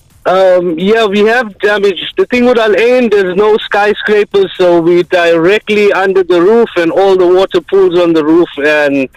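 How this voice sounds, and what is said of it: South African accent. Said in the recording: “Have you got a South African accent there? ... Yes, I'm from South Africa.”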